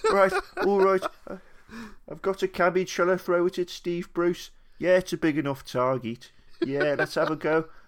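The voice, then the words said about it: Put-on Peaky Blinders-style accent. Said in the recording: “What a great accent fantastic. That was as well. I felt like the next series of Peaky Blinders is going to be amazing.”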